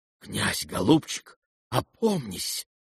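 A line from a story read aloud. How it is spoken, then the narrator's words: Horrified whisper. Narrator (Russian): с ужасом шепнул генерал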